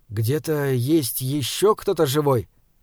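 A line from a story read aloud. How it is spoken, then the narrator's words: Soft question, young man. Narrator (Russian): мягко спросил юноша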